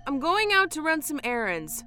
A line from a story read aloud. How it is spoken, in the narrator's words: she shouted